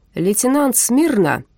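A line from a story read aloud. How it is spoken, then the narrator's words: Sudden loud bark. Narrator (Russian): неожиданно гаркнул Андерс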